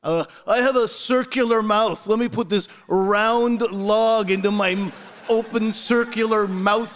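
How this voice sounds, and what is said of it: Exaggerated, offensively bad put-on accent. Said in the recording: “that is an offensively bad Asian accent ... that was not an Asian accent. That was a dumb person accent”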